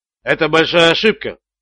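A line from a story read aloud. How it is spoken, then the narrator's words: Calm. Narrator (Russian): спокойно сказал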